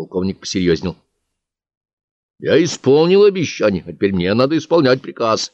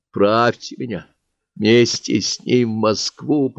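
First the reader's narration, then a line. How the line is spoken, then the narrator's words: Half-whispered, half-wheezed plea. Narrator (Russian): попросил полушепотом, полухрипом Марк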